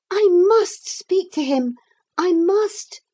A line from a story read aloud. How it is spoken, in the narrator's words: Lucy cried